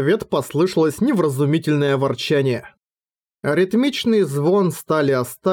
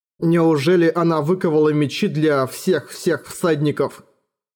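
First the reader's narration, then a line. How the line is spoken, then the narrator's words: Plain. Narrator (Russian): спросил Эрагон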